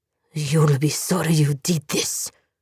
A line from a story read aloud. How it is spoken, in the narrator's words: he hissed